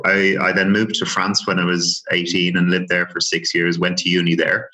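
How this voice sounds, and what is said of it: Dublin Irish accent. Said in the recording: “born and raised in Dublin ... the accent will give it away”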